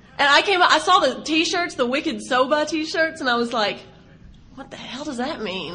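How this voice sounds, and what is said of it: Southern Texas accent. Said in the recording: “I never thought that I sound Southern ... I sound like I'm from Texas”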